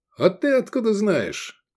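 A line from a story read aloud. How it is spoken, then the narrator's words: Pleased laughter. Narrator (Russian): Даврон засмеялся, довольный своей проницательностью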